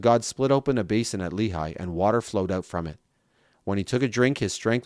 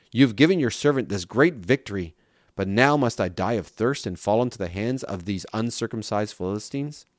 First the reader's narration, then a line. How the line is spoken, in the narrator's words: He was very thirsty, and so he cried out to the Lord and said